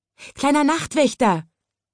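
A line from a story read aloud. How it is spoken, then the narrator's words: Calling out. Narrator (German): rief es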